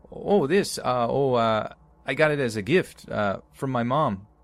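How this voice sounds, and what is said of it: Stammering put-on Canadian accent. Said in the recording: “In the best Canadian accent my uncle could conjure up, he stammered.”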